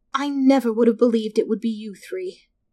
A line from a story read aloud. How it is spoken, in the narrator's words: said sadly